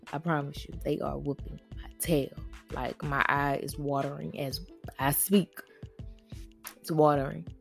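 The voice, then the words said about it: Voice going in and out. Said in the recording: “excuse my voice if it goes in and out, because my allergies are whooping me”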